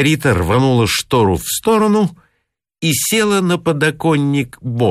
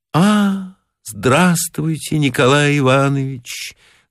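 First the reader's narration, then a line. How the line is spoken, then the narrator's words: Sad voice. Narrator (Russian): грустным голосом сказала Маргарита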